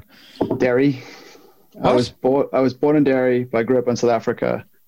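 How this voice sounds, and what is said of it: Accent resembling Australian or New Zealand. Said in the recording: “Where abouts the accent? Is it Aussie or New Zealand?”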